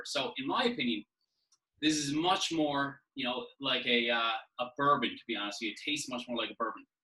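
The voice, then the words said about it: Newfoundland Canadian accent. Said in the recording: “if you can't tell from my accent ... I'm from St. John's, Newfoundland”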